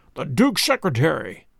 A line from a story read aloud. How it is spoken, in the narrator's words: cried Holmes